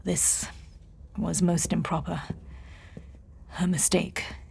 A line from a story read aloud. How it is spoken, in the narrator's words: he muttered